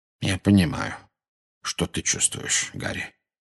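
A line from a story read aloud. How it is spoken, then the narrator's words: Very quiet. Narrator (Russian): очень тихо произнес Дамблдор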